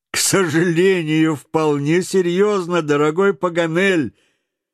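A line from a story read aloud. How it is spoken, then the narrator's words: Reply amid laughter. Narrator (Russian): ответил среди общего хохота Гленарван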